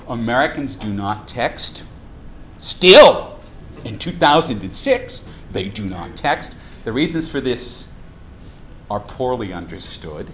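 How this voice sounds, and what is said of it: Strong American accent. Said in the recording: “as you can probably tell from my outrageous accent, I'm an American”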